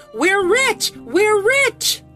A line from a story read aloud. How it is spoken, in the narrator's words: They kept shrieking this chant as they danced